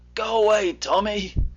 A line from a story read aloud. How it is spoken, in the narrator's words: said Jim feebly